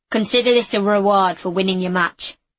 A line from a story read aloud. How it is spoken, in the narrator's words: said the guard